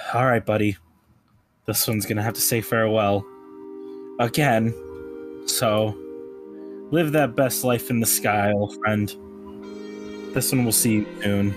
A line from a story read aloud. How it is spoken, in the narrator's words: sighs and just goes